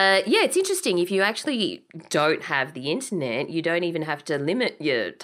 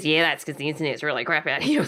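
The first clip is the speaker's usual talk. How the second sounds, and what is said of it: Stereotyped rural Beechworth accent. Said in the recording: “He probably didn't speak with that accent. ... That was probably stereotyping people from Beechworth.”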